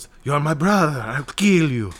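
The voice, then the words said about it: Jack Black doing Mexican accent. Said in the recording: “like a bigger Jack Black in Nacho Libre, where like everything he says sounds like Jack Black doing a Mexican accent.”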